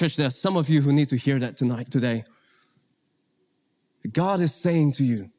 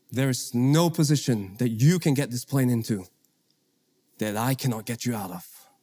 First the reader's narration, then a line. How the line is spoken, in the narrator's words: He very calmly said